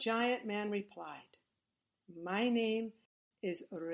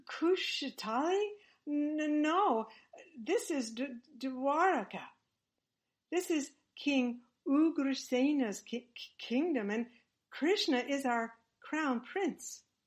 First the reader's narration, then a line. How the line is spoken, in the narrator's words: in a shivering voice, said